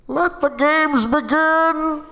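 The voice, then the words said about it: Bane impression. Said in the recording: “in my Bane voice”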